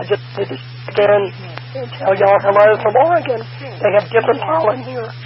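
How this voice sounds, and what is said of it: Strained voice, losing it. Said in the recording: “I'm losing my voice”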